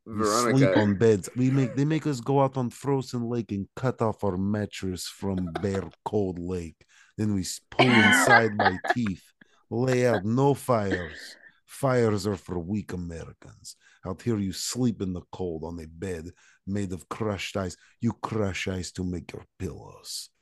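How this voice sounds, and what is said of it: Put-on Russian accent. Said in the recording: “I'm good at voices and I can imitate stuff... the Russian accent, super hardcore”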